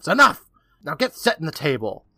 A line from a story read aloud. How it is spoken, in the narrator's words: Louisa snaps